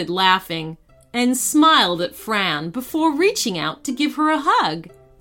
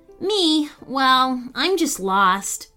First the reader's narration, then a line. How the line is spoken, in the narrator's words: Fran replied sadly